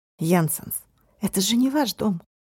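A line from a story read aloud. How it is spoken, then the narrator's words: Soft, slight smile. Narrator (Russian): мягко, с едва заметной улыбкой произнес Марк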